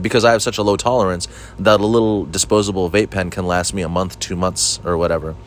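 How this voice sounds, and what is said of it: Flat monotone voice. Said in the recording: “I'm a very monotone guy. I'm so monotone”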